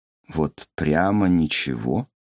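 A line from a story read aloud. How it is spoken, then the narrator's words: Slow questioning repeat. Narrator (Russian): медленно переспросил Чигён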